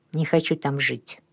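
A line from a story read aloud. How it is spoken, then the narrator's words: Quiet. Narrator (Russian): он тихо сказал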